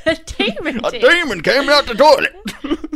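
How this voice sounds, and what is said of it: Put-on accent. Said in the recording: “I don't know why I went for that accent.”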